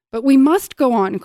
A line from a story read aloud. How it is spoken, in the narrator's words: cried Atreyu